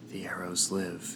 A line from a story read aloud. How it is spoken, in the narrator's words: I whispered